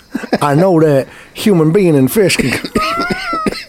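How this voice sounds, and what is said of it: Imitates another person's voice. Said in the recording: “This was his accent. What is his accent?”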